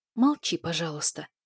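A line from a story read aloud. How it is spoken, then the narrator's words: Whisper. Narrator (Russian): шепнула я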